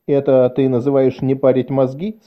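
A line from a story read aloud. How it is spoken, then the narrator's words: Plain. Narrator (Russian): сказал он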